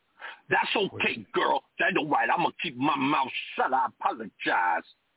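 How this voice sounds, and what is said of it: Exaggerated put-on dialect voice. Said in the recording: “do a bad impression of a black guy ... I'm doing an exaggerated version of a black guy”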